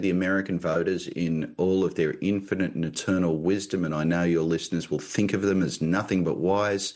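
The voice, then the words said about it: Australian accent. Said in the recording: “this accent, in fact, does not come from Michigan. It comes from Australia.”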